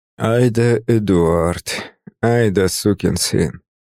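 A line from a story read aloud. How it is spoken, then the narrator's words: Thought, through gritted teeth. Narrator (Russian): мысленно процедил я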